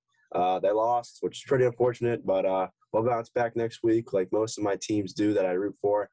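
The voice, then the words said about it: Slightly scratchy, hoarse voice. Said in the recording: “my voice is a little bit scratchy, because I was definitely screaming and yelling”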